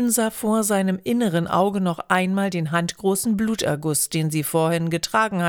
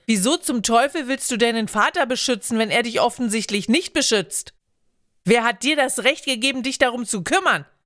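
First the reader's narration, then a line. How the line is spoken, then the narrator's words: Shouting back, relieved. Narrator (German): Jevil rief zurück, fühlte sich nun, wo er sie anschrie, besser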